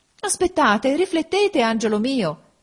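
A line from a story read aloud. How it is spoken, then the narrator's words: Mother's exclamation. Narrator (Italian): esclamò la madre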